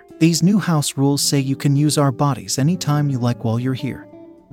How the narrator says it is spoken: Marion said

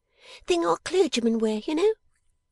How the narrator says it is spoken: exclaimed Miss Jenny

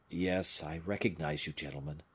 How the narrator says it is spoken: said the officer in a low voice

